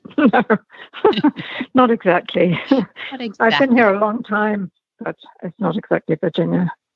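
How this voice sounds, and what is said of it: British accent, not Virginian. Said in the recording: “the accent is not quite Virginian ... I'm British”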